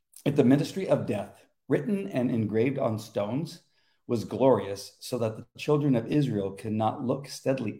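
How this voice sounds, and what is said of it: Rough, hoarse voice. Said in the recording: “My voice is a little rough today.”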